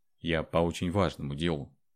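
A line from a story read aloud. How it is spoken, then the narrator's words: Calm. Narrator (Russian): спокойно повторил Андрей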